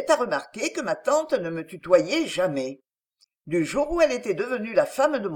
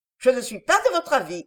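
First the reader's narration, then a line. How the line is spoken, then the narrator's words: Curt reply. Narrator (French): répondis-je sèchement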